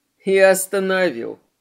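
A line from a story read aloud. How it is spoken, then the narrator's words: Chuckling. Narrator (Russian): хохотнул Марк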